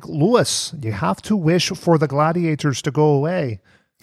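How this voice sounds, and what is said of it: Poor put-on Canadian accent, sounds Scottish. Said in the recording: “That's the worst Canadian... You do a better Canadian... You just sounded Scottish.”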